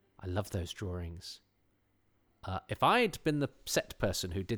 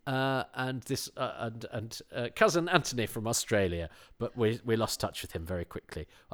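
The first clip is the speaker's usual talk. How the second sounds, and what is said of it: Put-on accent. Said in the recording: “I've done it all in that accent.”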